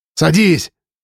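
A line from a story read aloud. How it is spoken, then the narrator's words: Shouted. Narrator (Russian): крикнул Павел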